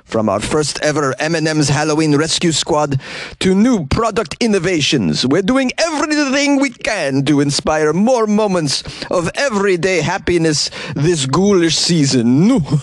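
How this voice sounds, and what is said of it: Count Dracula-style vampire voice. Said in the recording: “I'm not sure Tim talks like Count Dracula, but in my mind, that was a perfect impression”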